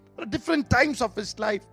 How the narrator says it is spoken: he cried

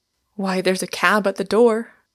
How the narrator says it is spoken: cried Inglewood, springing up with an unconscious energy

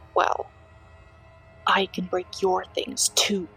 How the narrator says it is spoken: she hissed in my ear

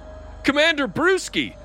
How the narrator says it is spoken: the voice exclaimed

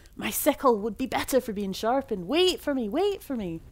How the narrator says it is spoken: begged

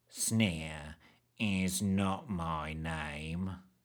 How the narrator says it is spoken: drawled

